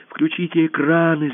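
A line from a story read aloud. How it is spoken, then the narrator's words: Shouted. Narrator (Russian): закричал кто-то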